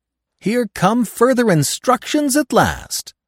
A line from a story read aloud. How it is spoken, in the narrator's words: I cried